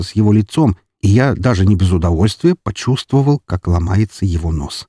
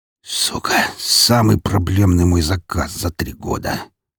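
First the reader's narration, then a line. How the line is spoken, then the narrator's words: Heavy muttering. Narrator (Russian): тяжело пробормотал он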